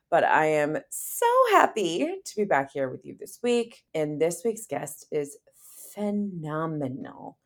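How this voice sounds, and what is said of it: Slightly congested voice. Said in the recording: “My voice is just slightly congested”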